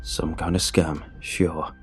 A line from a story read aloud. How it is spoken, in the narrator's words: he slurred